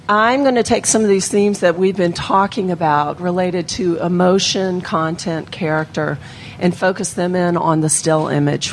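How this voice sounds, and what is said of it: Slightly hoarse voice. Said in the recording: “I'm also a little hoarse today, so I apologize.”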